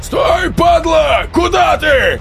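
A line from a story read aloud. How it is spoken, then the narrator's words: Roaring. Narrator (Russian): взревел косой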